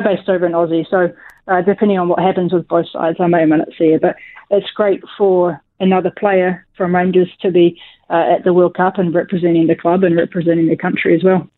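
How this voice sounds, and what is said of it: Strong New Zealand accent. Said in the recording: “you haven't picked up a Scottish accent ... make Kiwi accent sicker than ever”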